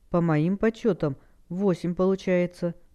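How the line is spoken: Sighing. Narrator (Russian): вздохнула Хэл

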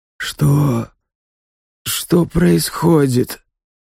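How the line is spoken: Confused mumbling. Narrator (Russian): путанное бормотание

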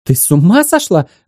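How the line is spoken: Shriek. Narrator (Russian): взвизгнула агентесса

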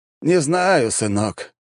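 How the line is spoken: Resigned sigh. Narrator (Russian): обреченно вздохнул король

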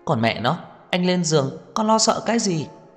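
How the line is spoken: Agitated exclamation. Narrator (Vietnamese): Lâm Sở Nhai kích động kêu lên

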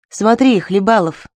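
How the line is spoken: Plain. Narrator (Russian): сказал наконец Благова

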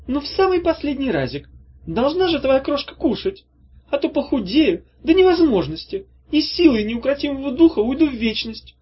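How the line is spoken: Pleading witch. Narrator (Russian): взмолилась ведьма

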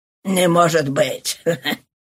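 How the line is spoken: Puzzled laughing speech. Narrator (Russian): смеясь сказал Ван Девер озадаченный

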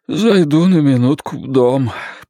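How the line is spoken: Hoarse wheeze. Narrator (Russian): просипел Глен

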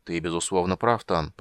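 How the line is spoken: Dwarf's mutter. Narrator (Russian): пробормотал рослый гном

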